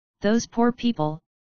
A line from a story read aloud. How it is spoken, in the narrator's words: HIG stammered